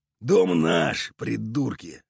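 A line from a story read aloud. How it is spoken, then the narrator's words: Creaky, miserable voice from floor. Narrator (Russian): проскрипел с пола несчастный Уйбуй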